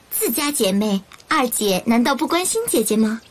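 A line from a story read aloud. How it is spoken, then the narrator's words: Smiling sweetly. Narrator (Chinese): 玉娆忙转了脸色，笑吟吟地说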